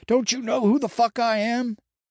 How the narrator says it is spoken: Wildfire being dragged off by police while screaming

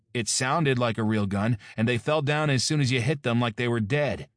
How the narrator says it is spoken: Mark objected angrily

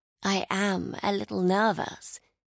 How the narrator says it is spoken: she began, lowering her voice

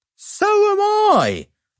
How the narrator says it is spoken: I cried

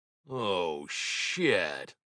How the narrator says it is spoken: I muttered

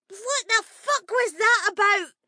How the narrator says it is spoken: Hester screeched, her tiny cheeks bright red

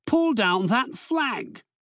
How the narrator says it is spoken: roared the officer

